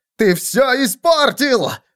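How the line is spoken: Shrieking. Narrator (Russian): завопил Виссен

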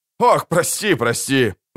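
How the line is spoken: Laughing. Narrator (Russian): засмеялся Кин

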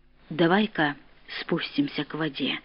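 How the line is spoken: Spoke quietly. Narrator (Russian): говорил негромко он

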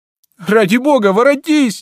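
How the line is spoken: Crying out in tears. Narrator (Russian): не голосом, а слезами кричал

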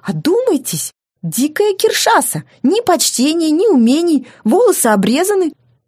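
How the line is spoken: Near shriek. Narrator (Russian): а он почти визжал

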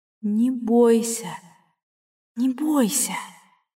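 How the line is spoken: Whispered in thought. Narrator (Russian): мысленно зашептала Кэс

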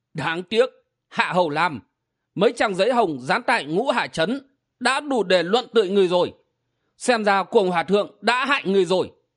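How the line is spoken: Shrill old man's voice. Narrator (Vietnamese): Giọng the thé của Lam Y lão nhân lại cất lên

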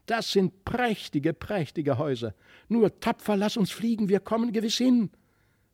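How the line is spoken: Delighted calling. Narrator (German): rief er voll Entzücken

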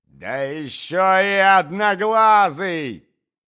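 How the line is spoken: Shouting. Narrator (Russian): закричала Марья Александровна

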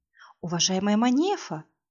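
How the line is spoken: Breathy, alluring exhale. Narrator (Russian): выдохнула Бааванши

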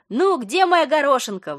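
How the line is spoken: Exclaiming from doorway. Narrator (Russian): воскликнула с порога Катя

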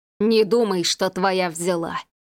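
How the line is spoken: Hissing. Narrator (Russian): прошипел Иван

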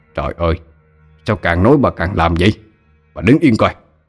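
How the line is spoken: Irritated snap. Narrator (Vietnamese): Ông ta gắt lên

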